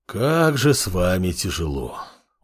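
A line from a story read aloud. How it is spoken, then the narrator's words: Sigh. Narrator (Russian): вздохнул Амор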